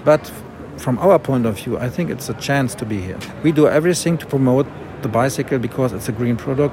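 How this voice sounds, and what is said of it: German accent. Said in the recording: “I love me a good German accent”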